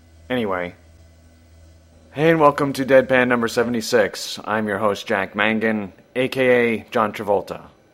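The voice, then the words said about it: Scratchy, rough-sounding voice. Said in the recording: “my voice is all scratchy and crappy. So yes, I have pod throat”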